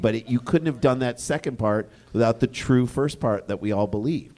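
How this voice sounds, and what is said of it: Loud, yelling delivery. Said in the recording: “I don't know why I'm yelling at you”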